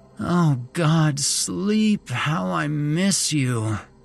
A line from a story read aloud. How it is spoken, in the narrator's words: Megan groaned